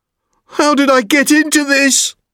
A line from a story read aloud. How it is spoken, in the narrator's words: He cried